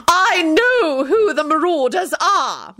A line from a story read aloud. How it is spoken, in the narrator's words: McGonagall practically shouted